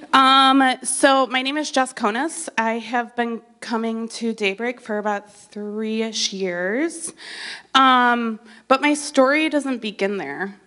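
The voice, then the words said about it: Slightly sick voice, throat clearing. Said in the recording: “I have a little bit of a cold,... so I have to clear my throat”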